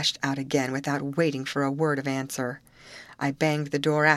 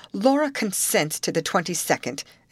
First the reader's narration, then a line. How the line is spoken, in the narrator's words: called to him as harshly as possible